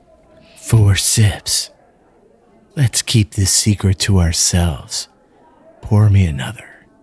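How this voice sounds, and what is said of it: Put-on sexy voice. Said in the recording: “best attempt at the sexy voice ... His sexy voice”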